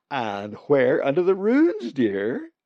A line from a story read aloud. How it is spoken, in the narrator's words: she asked brightly